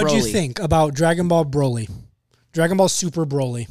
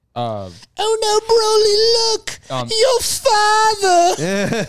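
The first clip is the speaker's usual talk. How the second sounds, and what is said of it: Good impression of a cartoon character. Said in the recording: “That's a good impression.”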